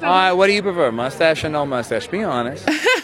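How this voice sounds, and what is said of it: Chris Evans' Boston accent. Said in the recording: “that accent, when wielded correctly, is extremely hot ... the Boston accent can be hot when Chris Evans speaks in it”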